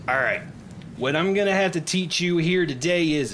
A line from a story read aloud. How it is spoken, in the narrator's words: she's yelling at the top of her lungs